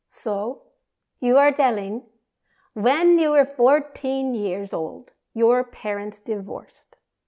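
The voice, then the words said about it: Classic Indian accent. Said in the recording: “he started in that classic Indian accent.”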